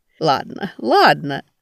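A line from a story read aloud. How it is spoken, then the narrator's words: Laughing. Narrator (Russian): рассмеялась чаянно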